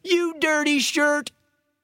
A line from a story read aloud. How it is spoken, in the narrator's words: the Eagle was heard shouting